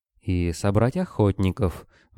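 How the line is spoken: Gloomy. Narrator (Russian): мрачно продолжила Ленка

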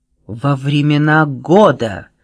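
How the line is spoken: Solemn blurt. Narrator (Russian): торжественно выпалила она

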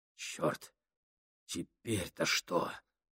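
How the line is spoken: Whisper. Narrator (Russian): прошептал Гослинг

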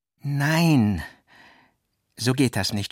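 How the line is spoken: Sudden groan. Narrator (German): stöhnte Walter nun plötzlich auf

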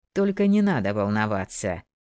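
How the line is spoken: Cheerful interjection, detective. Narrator (Russian): весело вставил детектив Брукс

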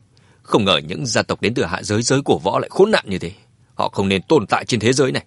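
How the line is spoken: Angry. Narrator (Vietnamese): Mã Tuần tức giận nói

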